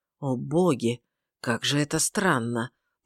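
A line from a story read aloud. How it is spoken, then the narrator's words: Mumbled. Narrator (Russian): пробормотал он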